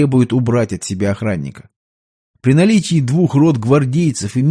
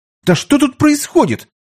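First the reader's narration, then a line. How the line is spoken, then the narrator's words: Indignant shout. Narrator (Russian): возмущенно закричал Петр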